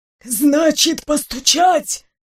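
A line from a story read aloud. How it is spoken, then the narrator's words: Frightening whistling whisper. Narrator (Russian): вопрошал людоед своим страшным свистящим шепотом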